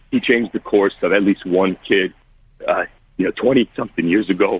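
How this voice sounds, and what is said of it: Emotional, strained speaking voice. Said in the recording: “I'm getting emotional right now”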